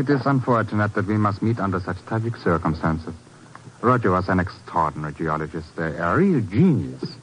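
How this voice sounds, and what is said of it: Czech accent, sounds German. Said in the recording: “my accent has betrayed me again. But you see, I am not German ... No, I am a Czech.”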